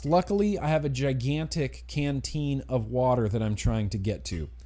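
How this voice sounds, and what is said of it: Strained, worn-out voice. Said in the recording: “my voice is already getting worse? ... My voice is just going downhill fast.”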